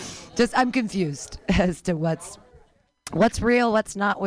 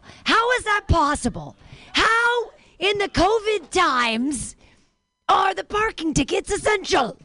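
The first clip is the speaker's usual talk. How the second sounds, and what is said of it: Imitates another person's voice. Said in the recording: “That was me being Cosby. ... That was my Cosby impression.”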